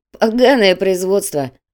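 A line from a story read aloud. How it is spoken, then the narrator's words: Laughing. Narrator (Russian): рассмеялся Раф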